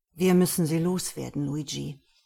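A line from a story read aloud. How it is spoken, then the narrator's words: Sonorous, craving voice. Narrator (German): sagte Bodo süchtelnd mit sonorer Stimme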